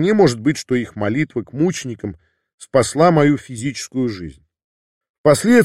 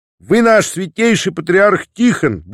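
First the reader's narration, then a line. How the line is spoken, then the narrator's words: Shouted. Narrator (Russian): буквально прокричала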